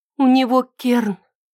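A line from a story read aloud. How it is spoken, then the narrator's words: Breathed out. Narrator (Russian): выдохнула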